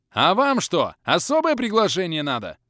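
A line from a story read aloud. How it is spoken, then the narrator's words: Barking. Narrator (Russian): рявкнул я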